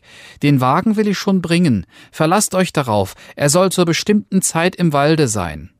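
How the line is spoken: Called out. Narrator (German): rief Daumes Dick

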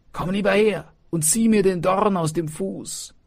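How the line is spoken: Fox calling out. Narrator (German): rief der Fuchs

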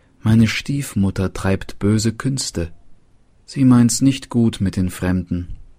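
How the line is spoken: Sighing girl. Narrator (German): Das Mädchen seufzte und sprach

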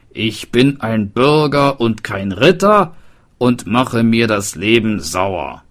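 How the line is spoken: Calling out in rhyme. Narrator (German): rief der Hufschmied und dichtete

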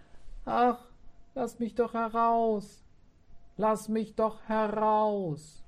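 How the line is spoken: Pitiful ghost cry. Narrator (German): der Geist rief ganz kläglich

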